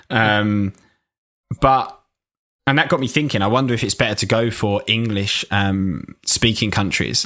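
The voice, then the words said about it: Strong, hard-to-understand English accent. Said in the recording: “I'm a nightmare to understand if you're English ... They can't understand my accent ... you really need to concentrate for some parts ... he's a geezer”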